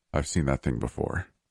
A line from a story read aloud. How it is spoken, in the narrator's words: Phoenix muttered, frowning thoughtfully